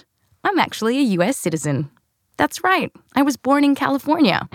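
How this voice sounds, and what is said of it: Australian accent. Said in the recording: “because of this accent... the accent's actually real, but I was born here, raised in Australia”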